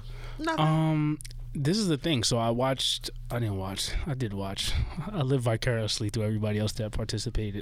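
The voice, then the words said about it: Hoarse, fading voice. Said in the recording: “Am I losing my voice here now?”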